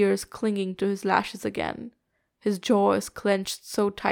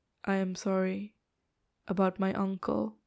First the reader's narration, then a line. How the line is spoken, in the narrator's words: Lan Wangji says quietly